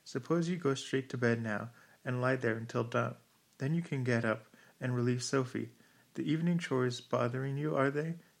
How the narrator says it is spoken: He laughed

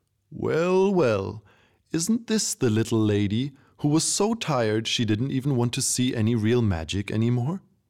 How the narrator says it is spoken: said and laughed

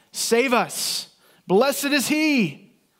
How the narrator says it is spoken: Many of these same people who are today shouting

